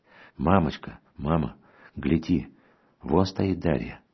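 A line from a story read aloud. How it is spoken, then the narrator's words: Excited whisper. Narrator (Russian): шепотом воскликнула, наконец, сестра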